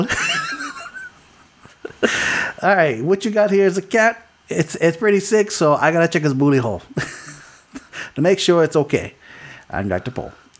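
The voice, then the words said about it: Imitates another person's voice. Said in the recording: “my impersonation of Dr. Pole goes as such ... that's pretty much like accurate ... That's very accurate.”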